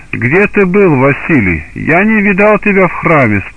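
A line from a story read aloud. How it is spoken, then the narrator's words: Plain. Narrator (Russian): спросил царь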